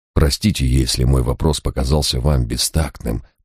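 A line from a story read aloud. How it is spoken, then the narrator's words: Muttered apology. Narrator (Russian): пробормотал я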